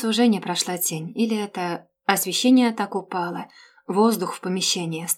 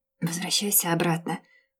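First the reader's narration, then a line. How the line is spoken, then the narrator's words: Barely audible hoarse rasp. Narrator (Russian): прохрипела я едва слышно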